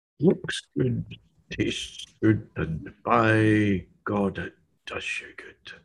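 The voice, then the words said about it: Impersonation of an old beer advert. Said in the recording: “doing an impersonation”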